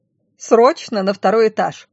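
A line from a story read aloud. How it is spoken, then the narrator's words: Barked from afar. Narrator (Russian): Рявкнул оттуда голос Флоры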